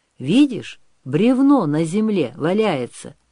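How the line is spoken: Deep voice over battle noise. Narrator (Russian): заговорил мечник, перекрывая густым голосом звон мечей и крики воинов

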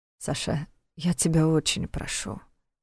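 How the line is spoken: Tired mutter. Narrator (Russian): устало пробормотал Войтах

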